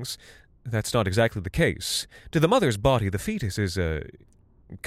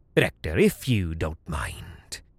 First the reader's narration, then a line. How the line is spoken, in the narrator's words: McCown Cleggan growled